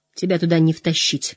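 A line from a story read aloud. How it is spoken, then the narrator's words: Muttered. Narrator (Russian): пробормотал Мэтт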